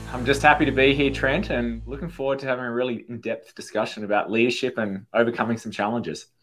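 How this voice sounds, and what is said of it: Slight Australian accent. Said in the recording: “he's got a little accent, right? is an Australian.”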